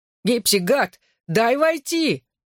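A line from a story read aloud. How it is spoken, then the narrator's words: Yelling. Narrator (Russian): орал Ронан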